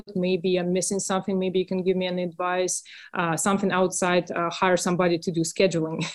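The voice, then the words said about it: Russian accent. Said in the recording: “You have a lovely accent... Russian... the accent is lovely”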